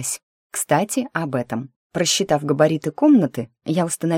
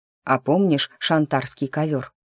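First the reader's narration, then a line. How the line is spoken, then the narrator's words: Plain question. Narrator (Russian): спросил меня Кларенс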